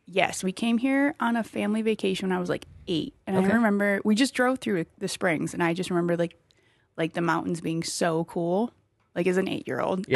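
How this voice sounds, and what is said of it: Wisconsin Midwestern accent. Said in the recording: “I'm from Wisconsin ... my really? Crazy little accent ... I just heard it.”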